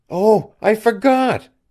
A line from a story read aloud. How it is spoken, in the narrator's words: she cried